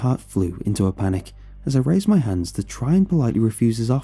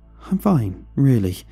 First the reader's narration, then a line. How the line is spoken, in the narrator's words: I stammered